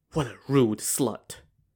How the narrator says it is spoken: he muttered to himself

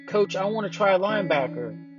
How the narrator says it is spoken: shouted

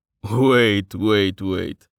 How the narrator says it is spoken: Hagar said, as he forced back his laughter

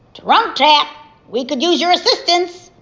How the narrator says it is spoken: Beaver threw his head back and hollered

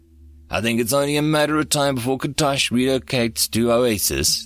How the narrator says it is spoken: Threedak sighed

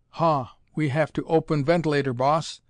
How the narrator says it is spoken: gasped the Martian

